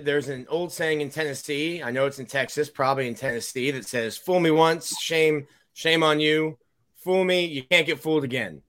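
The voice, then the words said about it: George W. Bush impression. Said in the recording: “noted George W. Bush impersonator ... Yeah, you nailed that shit”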